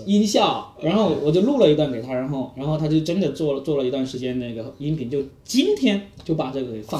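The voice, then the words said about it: Cantonese-accented Mandarin. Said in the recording (Chinese): “我的普通话又不又不标准 ... 你是广东人”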